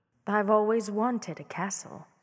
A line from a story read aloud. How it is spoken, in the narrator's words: she said sweetly